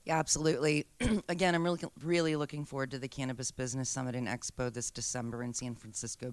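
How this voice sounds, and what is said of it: Slightly froggy, hoarse voice. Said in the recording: “my voice is a little froggy right now”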